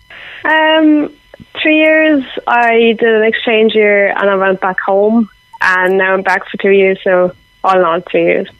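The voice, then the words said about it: Irish accent mixed with German. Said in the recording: “you've developed something of an Irish accent with a mixture of German”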